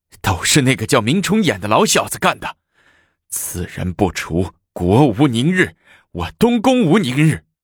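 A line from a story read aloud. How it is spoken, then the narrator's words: Angry roar. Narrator (Chinese): 太子贤 吼道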